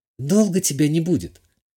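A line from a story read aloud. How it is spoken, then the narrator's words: Slightly frightened question. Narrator (Russian): немного испуганно спросила та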